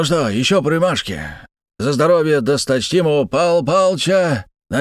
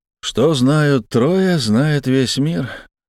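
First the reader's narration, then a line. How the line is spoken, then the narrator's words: Sighing. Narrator (Russian): вздохнул я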